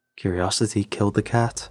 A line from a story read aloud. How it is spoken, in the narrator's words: I replied